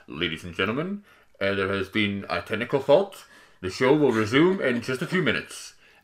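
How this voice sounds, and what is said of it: Put-on American accent, announcer voice. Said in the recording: “a voice that came over the tannoy, the speakers ... I don't know why it was an American accent”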